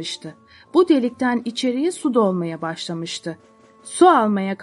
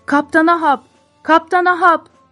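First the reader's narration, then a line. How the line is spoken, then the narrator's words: Shouting. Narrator (Turkish): diye bağırmaları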